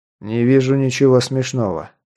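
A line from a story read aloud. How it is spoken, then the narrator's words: Calm reply. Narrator (Russian): спокойно ответил Скелл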